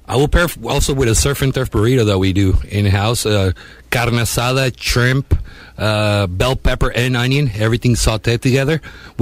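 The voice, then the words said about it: Speaks with a noticeable accent. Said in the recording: “between the food, between the accent, the beer, I'm having a moment”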